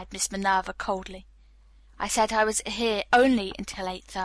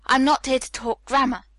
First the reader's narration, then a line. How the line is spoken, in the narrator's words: Hallett said sharply